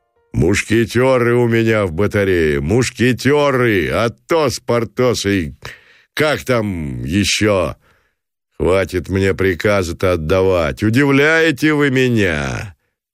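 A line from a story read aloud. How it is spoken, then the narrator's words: Friendly guffaw. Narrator (Russian): захохотал Гранатуров против ожидания дружелюбно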